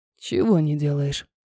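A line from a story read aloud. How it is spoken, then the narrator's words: Hoarse whisper. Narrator (Russian): прошептал хриплый голос куда-то в макушку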